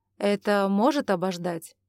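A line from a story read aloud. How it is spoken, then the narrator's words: Irritated question. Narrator (Russian): наконец раздраженно поинтересовался Ивар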